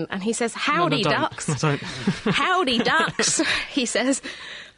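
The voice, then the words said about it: Attempted Texas accent. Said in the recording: “who's in Texas. I'm going to attempt to read this in the appropriate accent.”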